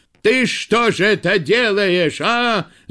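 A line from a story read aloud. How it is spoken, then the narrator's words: Shout. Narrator (Russian): закричал он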